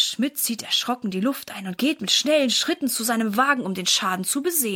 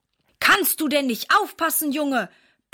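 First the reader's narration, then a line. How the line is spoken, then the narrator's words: Angry blustering. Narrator (German): poltert ärgerlich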